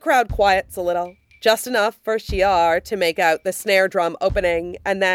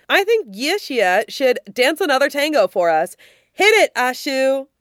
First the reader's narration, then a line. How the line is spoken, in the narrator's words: Wang Kaxing hollers above the noise